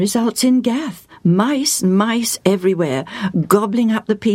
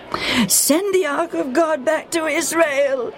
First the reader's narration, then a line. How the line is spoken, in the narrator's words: the people of Gath cried